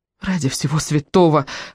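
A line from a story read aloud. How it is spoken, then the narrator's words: Sobbing. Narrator (Russian): разрыдалась Виана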